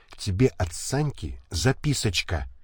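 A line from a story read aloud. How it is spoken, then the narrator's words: Barely audible whisper. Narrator (Russian): чуть слышно прошептала Малаша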